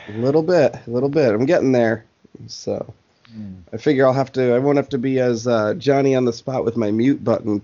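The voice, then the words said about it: Slightly hoarse, recovering sick voice. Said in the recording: “My voice is getting back to semi-normal. ... You sound a little bit better. ... my wretched hacking ... my horrible sounding cough”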